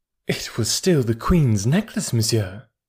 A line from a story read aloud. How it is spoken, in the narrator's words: replied the Countess haughtily